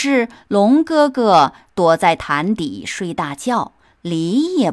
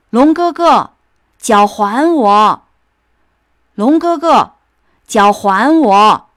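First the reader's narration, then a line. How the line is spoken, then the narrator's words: Furious desperate shouting. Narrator (Chinese): 鸡公公又气又恨，拼命的叫喊着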